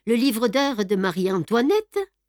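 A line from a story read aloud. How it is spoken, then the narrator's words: Exclaiming. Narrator (French): s'écria-t-il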